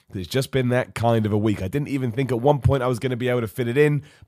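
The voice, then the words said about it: Sick, hoarse voice with cough. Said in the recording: “As you can tell by my voice, I am absolutely ravaged with sickness. There's a cough just for good measure.”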